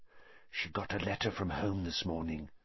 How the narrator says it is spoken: Parvati whispered

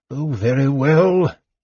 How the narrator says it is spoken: the old mage snarled

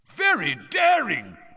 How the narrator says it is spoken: Bagman was yelling

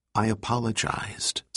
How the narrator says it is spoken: said Teasdale gently

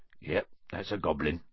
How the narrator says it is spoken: said Hagrid quietly

